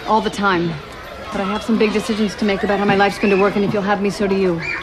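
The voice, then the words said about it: Talking very fast. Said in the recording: “Why are you talking so fast?”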